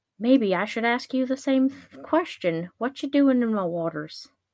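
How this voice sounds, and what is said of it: Unidentified put-on accent. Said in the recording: “I don't know what this accent is.”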